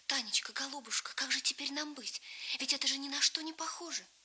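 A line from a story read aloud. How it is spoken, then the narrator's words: Agitated whisper. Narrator (Russian): шептала взволнованно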